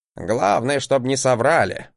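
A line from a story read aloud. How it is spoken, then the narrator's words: Grumbling. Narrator (Russian): проворчал Гринельф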